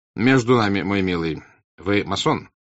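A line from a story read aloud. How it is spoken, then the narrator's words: Stern yet forgiving tone. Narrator (Russian): сказал граф Растопчин строгим тоном, как будто было что-то дурное в этом, но что он намерен был простить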